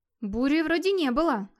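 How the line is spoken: Bewildered. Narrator (Russian): растерянно проговорил Гейр

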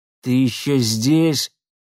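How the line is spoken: Through gritted teeth. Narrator (Russian): процедил Кайгородцев

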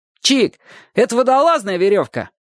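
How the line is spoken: Boy shouting. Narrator (Russian): крикнул ему знакомый пацан

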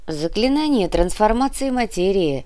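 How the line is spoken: Lazy drawl. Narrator (Russian): лениво сообщила Инга

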